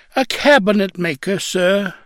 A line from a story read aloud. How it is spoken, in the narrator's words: still whining